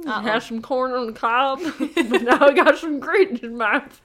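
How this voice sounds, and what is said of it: Put-on Southern US accent. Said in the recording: “Is that your southern accent? I love it. ... That's my southern accent for someone who has grit in their mouth. ... wow, you're like so southern. You're like, it's like you have a dip in.”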